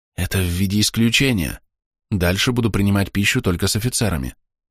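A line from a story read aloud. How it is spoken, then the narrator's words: Quiet secretive whisper. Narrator (Russian): тихо прошептал я, чтобы не услышали мои подчиненные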